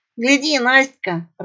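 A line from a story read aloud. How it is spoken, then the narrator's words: Rat laughing. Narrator (Russian): рассмеялась крыса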